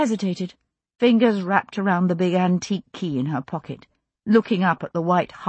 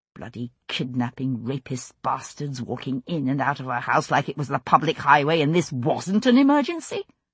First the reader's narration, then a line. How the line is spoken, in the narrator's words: muttering under her breath